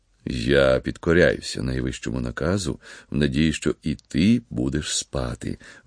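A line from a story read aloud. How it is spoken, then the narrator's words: Father speaking. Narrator (Ukrainian): вимовив батько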